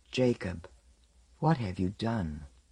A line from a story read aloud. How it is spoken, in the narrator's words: as she said softly